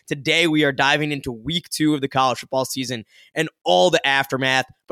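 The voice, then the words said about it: Tired, worn-out voice. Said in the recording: “You can probably hear it in my voice. It was a long weekend”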